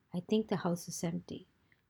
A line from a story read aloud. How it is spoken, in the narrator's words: Dawn's piercing whisper